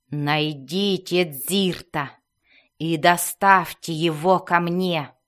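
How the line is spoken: Grating, gravelly growl. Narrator (Russian): Скрежещущим голосом, словно ее рот был набит галькой, она прорычала

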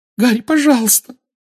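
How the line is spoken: Weak squeak. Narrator (Russian): слабо пискнула Гермиона

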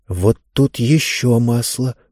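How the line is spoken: Muttering. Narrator (Russian): бормотала Занна

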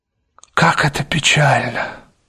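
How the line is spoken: Sudden mutter. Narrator (Russian): пробормотал вдруг Дориан Грей

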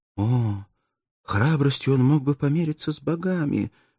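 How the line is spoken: Sad exclamation. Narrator (Russian): воскликнула грустным тоном Мирдза

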